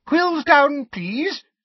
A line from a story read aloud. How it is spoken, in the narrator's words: squeaked Professor Flitwick